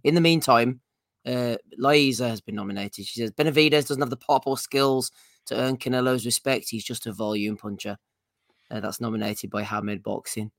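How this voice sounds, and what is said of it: Hoarse, strained, nearly lost voice. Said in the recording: “You can hear that I can barely speak. ... It was a long night ... I'll give my voice a rest”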